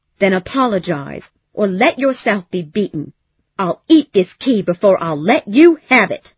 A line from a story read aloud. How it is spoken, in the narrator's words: she said angrily